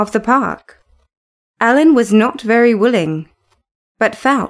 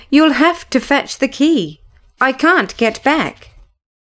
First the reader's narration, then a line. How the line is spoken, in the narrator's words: cried